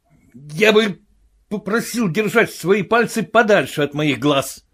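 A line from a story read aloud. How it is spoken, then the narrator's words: Furious disembodied voice. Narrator (Russian): Раздались из пустоты слова, произнесенные яростным тоном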